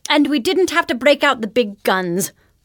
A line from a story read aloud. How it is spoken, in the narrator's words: Books exclaimed